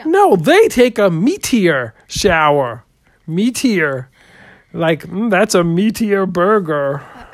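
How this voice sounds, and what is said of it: Voice sounding like Kermit the Frog. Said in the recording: “Are you trying to do a Kermit the Frog impression? ... Are you making fun of the way I talk”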